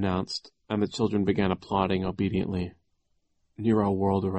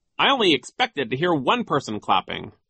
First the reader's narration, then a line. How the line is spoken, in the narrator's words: he said sternly